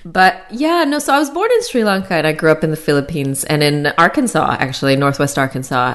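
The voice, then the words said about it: North American accent, not Australian. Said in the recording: “you don't really sound like you're from Australia ... It's really hard to acquire an Australian accent ... people think I'm from Canada now. It was that they thought I was from the US.”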